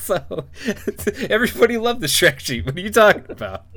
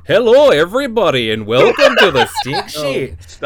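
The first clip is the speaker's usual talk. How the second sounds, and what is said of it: Exaggerated Canadian accent. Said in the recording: “I'm doing a Canadian voice. I'm not doing Scottish. ... We can both suck at it. ... I can do a Canadian voice.”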